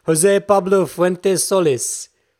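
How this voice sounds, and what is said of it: Put-on Spanish accent. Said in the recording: “It's my best at a Spanish accent.”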